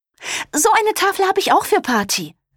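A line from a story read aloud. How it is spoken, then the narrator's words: Excited call. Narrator (German): rief Olivia aufgeregt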